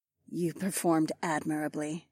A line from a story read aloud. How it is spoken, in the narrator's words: Taz purred